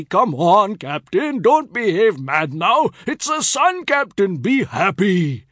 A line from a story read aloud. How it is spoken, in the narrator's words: Picture Singh, scandalized by my laughter, cried repeatedly